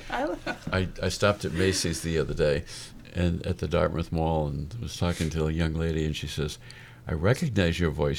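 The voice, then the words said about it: Polished radio announcer voice. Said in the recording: “It's that radio voice.”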